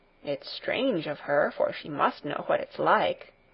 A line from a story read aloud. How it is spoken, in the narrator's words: grumbled the miller